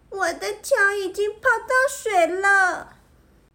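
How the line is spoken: Crying out. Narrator (Chinese): 法拉哭喊着

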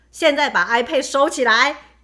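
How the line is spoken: Loud voice. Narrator (Chinese): 我就很大声的说

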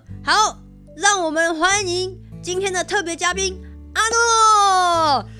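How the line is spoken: Announcer's shout. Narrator (Chinese): 那个节目主持人对着大家喊说

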